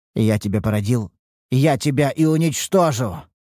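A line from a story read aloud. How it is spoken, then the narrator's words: Growled. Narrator (Russian): прорычал он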